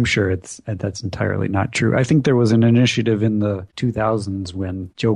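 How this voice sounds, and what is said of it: Usual voice. Nothing is said of it.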